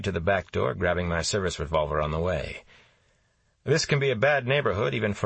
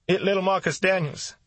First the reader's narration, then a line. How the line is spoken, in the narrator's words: she said, and cried even louder